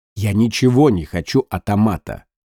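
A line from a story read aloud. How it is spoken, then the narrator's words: Snort. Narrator (Russian): Лев фыркнул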